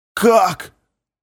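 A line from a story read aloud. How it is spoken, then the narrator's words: Hoarse, strained croak. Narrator (Russian): прохрипел мой учитель, с трудом выдавливая из себя слова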